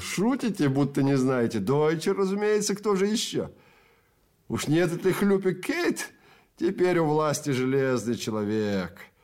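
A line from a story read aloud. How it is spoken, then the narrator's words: Giggling. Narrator (Russian): Человек за конторкой хихикнул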